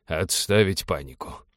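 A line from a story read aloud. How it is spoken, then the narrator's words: Muttered. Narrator (Russian): пробормотал он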